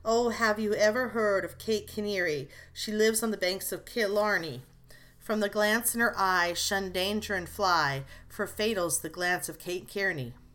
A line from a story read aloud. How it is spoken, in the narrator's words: he sighed and sung